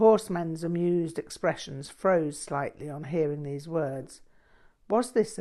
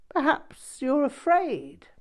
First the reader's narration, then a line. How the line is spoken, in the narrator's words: chuckled